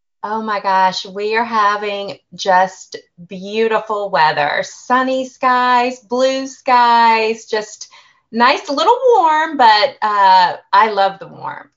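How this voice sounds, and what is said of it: Southern American accent. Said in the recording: “she's got that nice Southern accent”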